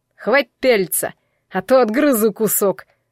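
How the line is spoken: Serious growl. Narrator (Russian): рыкнул совершенно не заигрывая

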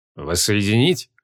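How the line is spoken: Cold question. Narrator (Russian): холодно переспросил архимаг

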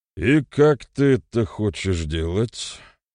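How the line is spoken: Gloomy question. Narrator (Russian): мрачно осведомился Рудомир

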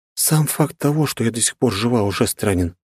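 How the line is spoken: Sad voice. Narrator (Russian): произнесла я грустным голосом

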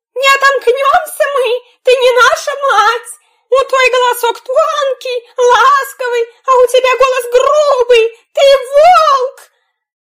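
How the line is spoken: Young goats shouting. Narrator (Russian): козляточки по грубому голосу поняли, что это пришел к ним волк, и крикнули ему

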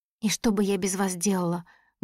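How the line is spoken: Tearful speech. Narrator (Russian): говорю я сквозь слезы

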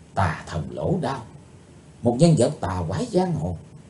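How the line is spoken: Whispering. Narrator (Vietnamese): Chí Tôn khẽ nói thầm

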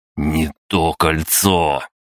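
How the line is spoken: Growling. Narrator (Russian): прорычал я

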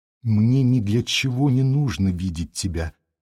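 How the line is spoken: Timid reply. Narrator (Russian): робко отвечал он

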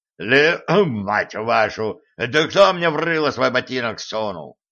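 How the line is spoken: Growling gnome. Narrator (Russian): рыкнул гном

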